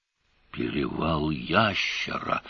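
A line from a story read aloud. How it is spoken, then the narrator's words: Breathless exhale. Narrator (Russian): выдохнул Певер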